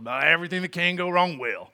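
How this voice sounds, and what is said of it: Grumpy old man voice. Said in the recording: “That was my grumpy old man voice, did the best I could.”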